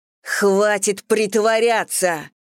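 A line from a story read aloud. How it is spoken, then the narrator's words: Barked. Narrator (Russian): рявкнула Мэгги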